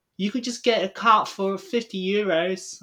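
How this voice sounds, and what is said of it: Mocking imitation of a tourist's accent. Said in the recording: “that's not the wrong accent... I don't know what that accent was... the way she said fifty euros. We were just mocking it”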